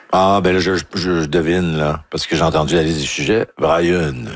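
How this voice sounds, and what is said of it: Usual voice. Nothing is said of it.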